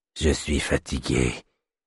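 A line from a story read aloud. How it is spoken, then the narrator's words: Tired little man murmuring. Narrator (French): murmura le petit homme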